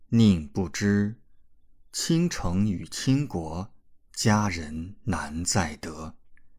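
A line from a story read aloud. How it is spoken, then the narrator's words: Slow tender recitation. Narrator (Chinese): 李准眼眸含笑，甚至有一股柔情，缓缓念出最后一句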